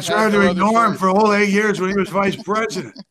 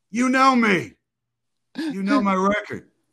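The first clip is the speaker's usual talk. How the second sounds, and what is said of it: Joe Biden impression. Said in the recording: “I had to develop a Biden... I don't need to do an impression of this guy. But now I do.”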